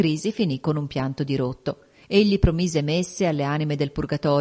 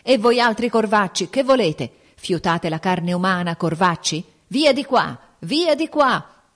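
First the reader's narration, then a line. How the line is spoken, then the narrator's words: Sick man shouting. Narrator (Italian): l'infermo gridava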